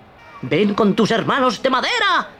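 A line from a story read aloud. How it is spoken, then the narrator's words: Shouted. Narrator (Spanish): gritó Arlequín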